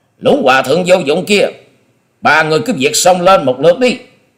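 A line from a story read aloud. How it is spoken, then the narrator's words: Loud shout. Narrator (Vietnamese): Long Điểu Kiếm Khách quát to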